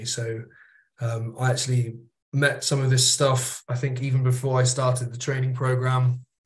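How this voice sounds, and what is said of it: British accent. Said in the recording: “as you might be able to tell from my accent, I'm based in the UK”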